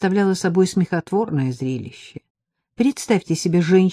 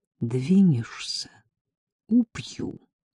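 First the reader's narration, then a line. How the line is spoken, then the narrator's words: Quiet. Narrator (Russian): сказала я тихо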